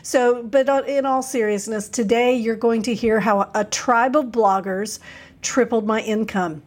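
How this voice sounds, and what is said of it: Husky voice from a cold. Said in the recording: “This is the I Have a Cold version of the podcast ... you will hear that my voice has gotten super sexy because that's just what colds do”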